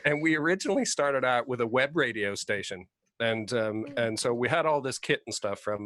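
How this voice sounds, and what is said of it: Canadian accent. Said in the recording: “I'm the one with a Canadian accent”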